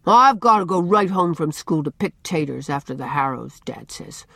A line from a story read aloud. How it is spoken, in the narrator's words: answered Dan sulkily